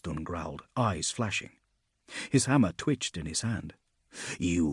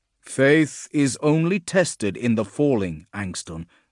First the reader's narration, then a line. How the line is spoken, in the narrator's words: Gardas said, firmly and loudly